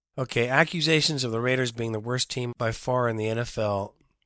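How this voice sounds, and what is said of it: Strained, hoarse voice. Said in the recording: “I'm going to lose my voice. ... This is how much I was screaming yesterday”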